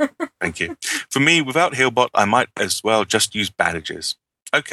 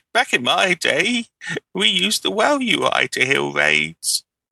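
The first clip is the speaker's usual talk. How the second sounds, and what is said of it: Old man voice. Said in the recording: “in your old man voice... That's my old man voice.”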